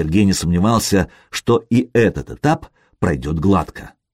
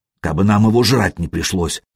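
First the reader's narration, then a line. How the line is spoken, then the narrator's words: Grumble. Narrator (Russian): проворчал Шибрень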